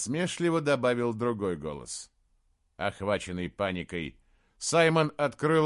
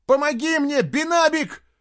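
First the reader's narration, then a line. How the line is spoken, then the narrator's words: Shrill squeal. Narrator (Russian): взвизгнул он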